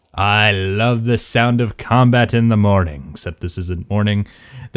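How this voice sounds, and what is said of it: Weird put-on accent. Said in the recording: “That was a weird accent”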